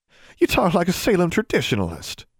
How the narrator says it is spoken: Julia laughed

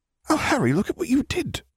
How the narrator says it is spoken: Remus exclaimed in amazement

